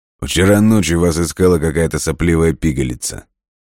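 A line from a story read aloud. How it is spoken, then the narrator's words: Deep bass voice. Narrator (Russian): пробасил он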